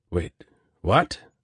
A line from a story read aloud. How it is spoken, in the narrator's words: Venkat stammered